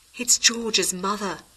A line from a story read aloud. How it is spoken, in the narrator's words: whispered Gillian